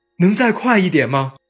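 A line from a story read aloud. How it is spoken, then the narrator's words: Pleading. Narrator (Chinese): 他的语气里带着哀求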